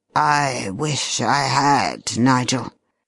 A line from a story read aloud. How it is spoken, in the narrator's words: said bitterly